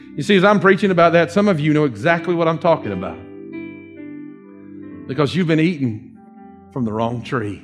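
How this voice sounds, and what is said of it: Dawsonville regional accent. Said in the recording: “Excuse my Dawsonville accent there”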